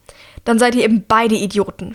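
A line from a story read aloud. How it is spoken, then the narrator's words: Shouting. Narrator (German): schreit Mira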